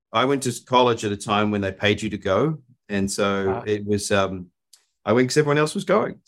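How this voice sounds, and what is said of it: New Zealand accent. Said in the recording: “you can tell by my accent, I'm not from Austin, Texas. I grew up in New Zealand”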